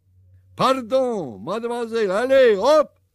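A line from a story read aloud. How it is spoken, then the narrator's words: Shouted. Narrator (Russian): крикнул он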